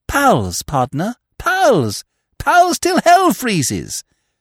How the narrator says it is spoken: cried Freddy, deeply moved

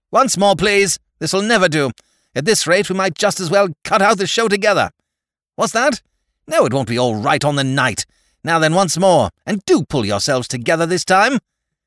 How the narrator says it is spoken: snaps out

